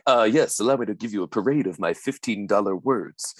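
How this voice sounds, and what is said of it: Fast, deep, matter-of-fact character voice. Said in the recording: “pretty good impression ... He just kind of talks very fast and talks matter-of-factly ... he speaks deeply”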